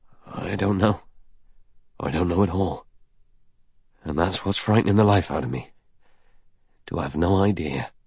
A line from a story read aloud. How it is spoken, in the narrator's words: He said hoarsely